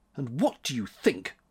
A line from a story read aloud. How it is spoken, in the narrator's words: grumbled March